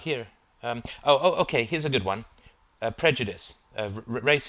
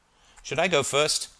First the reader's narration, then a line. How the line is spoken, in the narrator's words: asked Alice, a little impatiently